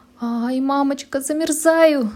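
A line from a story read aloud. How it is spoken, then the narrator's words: Crying out. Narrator (Russian): закричала Женя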